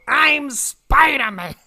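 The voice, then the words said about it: Imitates another person's voice. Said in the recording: “I can't do his fucking voice”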